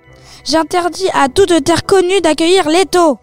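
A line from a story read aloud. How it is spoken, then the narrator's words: Screaming from above. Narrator (French): hurla-t-elle du haut de l'Olympe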